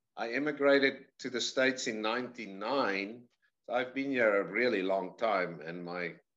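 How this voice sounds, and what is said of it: South African accent, slightly Americanized. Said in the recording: “you're not from Georgia by the way you speak ... I'm from South Africa originally ... accent drifted like a slight little bit and then got stuck”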